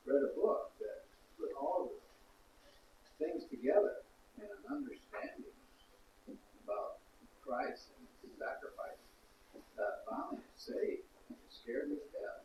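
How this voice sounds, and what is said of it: Texas accent. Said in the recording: “I could tell by your accent. You know, I thought maybe it was England or Texas.”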